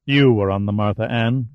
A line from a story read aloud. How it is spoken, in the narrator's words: Delphi said coldly